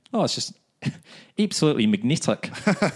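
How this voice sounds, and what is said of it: Put-on New Zealand accent. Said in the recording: “My new favourite word in New Zealand accent is magnetic.”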